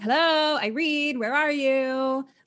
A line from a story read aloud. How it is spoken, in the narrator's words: a man yelling